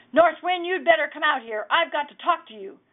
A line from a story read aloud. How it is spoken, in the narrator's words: Per hollered at the door